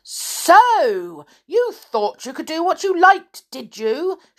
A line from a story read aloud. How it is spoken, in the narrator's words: She cried